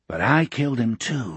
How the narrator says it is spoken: Morgan whispered

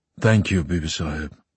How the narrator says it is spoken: Father muttered

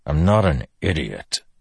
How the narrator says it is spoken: Dalinar growled

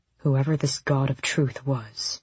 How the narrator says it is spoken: Rowan murmured, as if trying not to be overheard by the dead

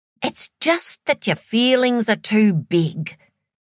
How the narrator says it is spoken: her dad's mother told her

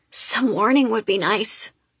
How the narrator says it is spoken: I rasp out

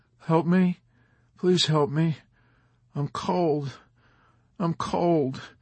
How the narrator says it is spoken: Snowden broke in, whimpering

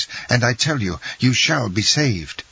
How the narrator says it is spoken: exclaimed Dantès

